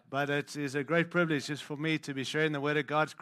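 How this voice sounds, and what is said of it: Mixed African and Australian accent. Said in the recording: “I'm hoping you can understand my accent. I'm born African, lived in Australia... I just don't sound like you”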